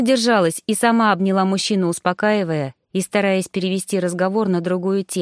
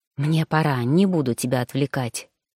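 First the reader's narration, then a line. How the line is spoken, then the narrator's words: Cautious whisper. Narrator (Russian): проговорил шепотом, так как в коридоре показалось трое служанок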